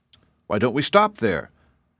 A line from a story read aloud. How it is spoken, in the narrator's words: asked Betsy